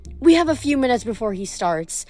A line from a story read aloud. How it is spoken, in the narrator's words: Melly said cheerfully